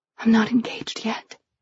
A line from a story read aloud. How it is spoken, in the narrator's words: I whispered